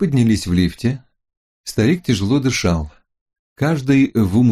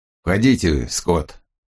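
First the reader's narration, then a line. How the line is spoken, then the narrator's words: Grumpy grumble. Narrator (Russian): проворчал он, словно предупреждая меня, что сегодня он не в настроении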